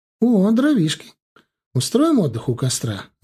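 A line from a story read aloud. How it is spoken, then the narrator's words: Cheerful suggestion. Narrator (Russian): радостно предложила Лера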